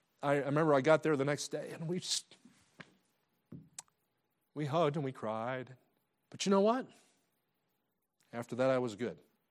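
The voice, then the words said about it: Choked-up, emotional voice. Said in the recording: “get choked up like this”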